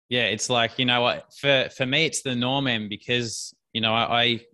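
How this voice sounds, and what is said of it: Australian accent. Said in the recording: “as you can most probably tell from his accent ... Australia”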